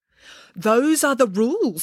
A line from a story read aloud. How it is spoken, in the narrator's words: said the elf sternly